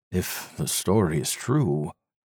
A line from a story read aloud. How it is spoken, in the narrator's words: Mark Williams murmured